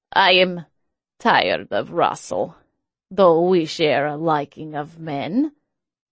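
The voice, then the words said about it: Heavy accent. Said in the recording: “his accent even heavier”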